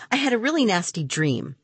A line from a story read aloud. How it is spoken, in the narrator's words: suddenly he blurted out